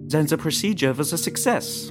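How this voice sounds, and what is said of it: Thick foreign accent. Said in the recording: “he exclaims in that thick accent”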